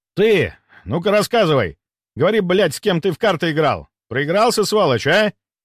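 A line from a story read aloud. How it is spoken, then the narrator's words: Shouting while moving. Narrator (Russian): выкрикнул на ходу Большак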